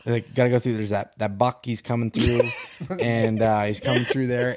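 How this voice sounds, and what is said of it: Imitates another person's voice. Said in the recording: “you got to do his voice when you do it. You do a real good Johnny Stewart.”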